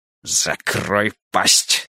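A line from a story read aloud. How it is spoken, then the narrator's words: Hissed. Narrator (Russian): прошипел Фариш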